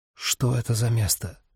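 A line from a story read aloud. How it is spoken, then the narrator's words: Whisper. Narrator (Russian): обратился он шепотом к Роз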